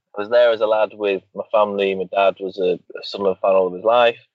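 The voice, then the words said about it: Slight lingering Geordie accent. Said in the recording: “originally from Wall's End... I still have a bit of an accent. It's just sort of lingering on.”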